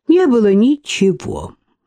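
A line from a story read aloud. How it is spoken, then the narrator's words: Man sighing. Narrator (Russian): вздохнул мужчина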